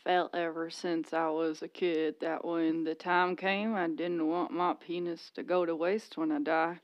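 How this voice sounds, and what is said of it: Southern accent, barely opened mouth. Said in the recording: “he's got a southern accent. He doesn't open his mouth when he talks... He kind of sounds like Dr. Phil... That, you nailed it”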